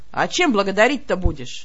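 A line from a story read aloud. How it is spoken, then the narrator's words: Scoffing snort. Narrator (Russian): Я хмыкнула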